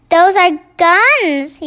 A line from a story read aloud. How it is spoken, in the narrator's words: cried